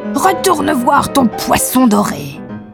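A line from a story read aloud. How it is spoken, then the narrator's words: Yelling. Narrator (French): hurla-t-elle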